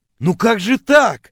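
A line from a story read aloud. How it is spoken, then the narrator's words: Offended wailing. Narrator (Russian): обиженно вопил я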